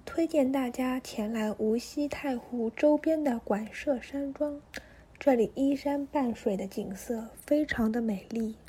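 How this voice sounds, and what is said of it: Zhejiang-accented southern Chinese woman. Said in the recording (Chinese): “这个女生的那个口音一听就是有浙江口音的那个... 那个南南方女孩儿。”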